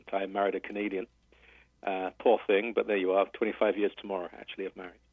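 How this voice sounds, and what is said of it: British accent. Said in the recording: “I'm from Britain originally. You can probably tell from my accent.”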